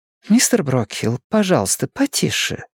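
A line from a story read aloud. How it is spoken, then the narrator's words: Gentle request to old man. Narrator (Russian): мягко обратилась она к старику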